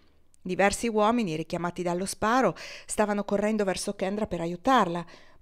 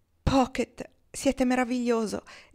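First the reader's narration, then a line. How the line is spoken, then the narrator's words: Exclaimed. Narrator (Italian): esclamò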